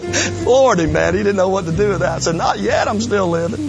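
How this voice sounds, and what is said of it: Southern US accent. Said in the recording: “you sound funny ... my Southern accent”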